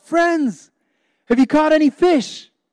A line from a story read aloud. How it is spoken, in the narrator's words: a stranger called out